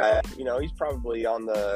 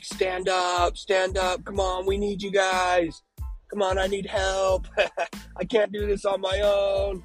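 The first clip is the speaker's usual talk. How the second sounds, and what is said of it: Screaming. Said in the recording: “I'm screaming”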